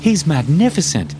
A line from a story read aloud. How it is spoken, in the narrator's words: Rita exclaimed in excitement